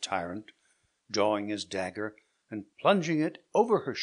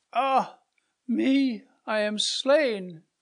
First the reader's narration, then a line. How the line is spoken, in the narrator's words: cried Matilda